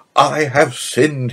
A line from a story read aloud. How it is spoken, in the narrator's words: he cried